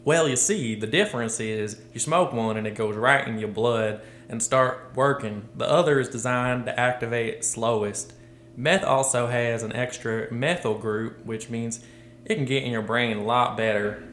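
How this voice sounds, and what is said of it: Put-on Southern US accent. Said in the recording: “I have to read this in an accent. ... Is he from the South? ... he's from Mississippi.”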